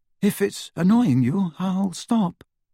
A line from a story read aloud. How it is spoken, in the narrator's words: he told Hermione nervously